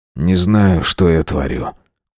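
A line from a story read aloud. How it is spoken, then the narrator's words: Tired. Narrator (Russian): устало сказал я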